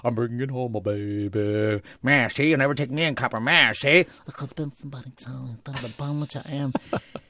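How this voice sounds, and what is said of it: Comic character voice. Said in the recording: “I would do voices for them ... I would just do my voices, you know, because I could do voices.”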